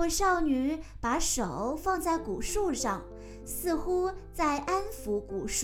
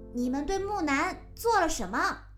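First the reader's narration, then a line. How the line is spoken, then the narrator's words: Girl, loud demanding. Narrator (Chinese): 一位少女大声质问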